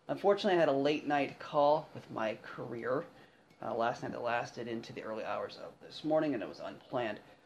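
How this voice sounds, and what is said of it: Tired, fatigued voice. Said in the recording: “excuse my voice, maybe a little bit of fatigue”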